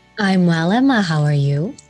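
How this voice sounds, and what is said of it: Smooth FM DJ radio voice. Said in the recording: “Now that's a proper FM DJ radio voice there. ... You do have the best voice”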